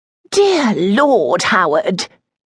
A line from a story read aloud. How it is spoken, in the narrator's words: Lady Dibbleshire exclaimed